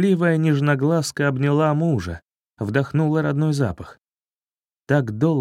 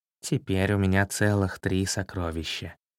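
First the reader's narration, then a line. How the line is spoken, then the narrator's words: Soft tender voice. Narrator (Russian): ласково глядя на малышей, тихо сказал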